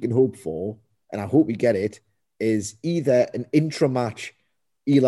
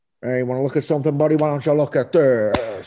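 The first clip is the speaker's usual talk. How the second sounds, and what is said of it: Imitates another person's voice. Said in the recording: “your best impression ... it's not quite The Rock”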